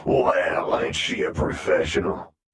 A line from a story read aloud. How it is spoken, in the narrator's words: Redgrin said, switching over to his thickly accented version of the trade tongue